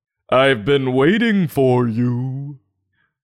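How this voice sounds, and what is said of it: Deep octopus character voice. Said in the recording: “said the octopus with a deep voice.”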